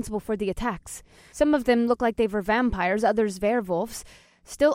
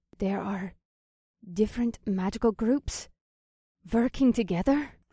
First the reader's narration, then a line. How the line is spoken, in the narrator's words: She asked softly